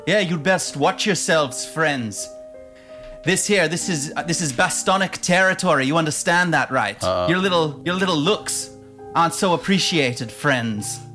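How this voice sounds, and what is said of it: Character voice with unusual accent. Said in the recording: “where that accent is from ... This accent?”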